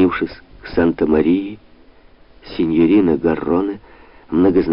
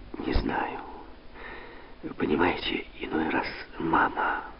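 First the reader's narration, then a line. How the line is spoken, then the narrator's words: Whisper. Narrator (Russian): прошептала она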